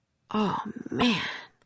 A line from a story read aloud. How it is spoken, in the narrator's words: whispered Jack